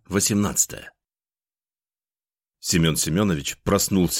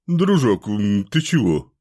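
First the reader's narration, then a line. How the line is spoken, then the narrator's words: Sleepy mumble. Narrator (Russian): Сонно пробормотал маг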